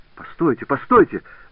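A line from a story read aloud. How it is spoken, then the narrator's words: Urgent shouting. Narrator (Russian): закричал Жак Убри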